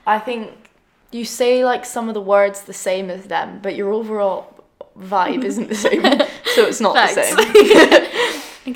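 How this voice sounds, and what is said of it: Scottish accent. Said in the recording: “our accents are quite different ... Scottish accent isn't good when they hear my voice”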